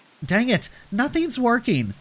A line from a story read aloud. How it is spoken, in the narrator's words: she cried